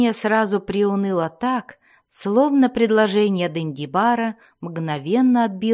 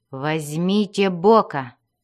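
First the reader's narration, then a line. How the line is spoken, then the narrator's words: Spiteful smirking. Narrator (Russian): злобно усмехнулся и сказал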